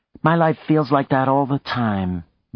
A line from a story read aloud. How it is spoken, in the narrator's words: Maya said sadly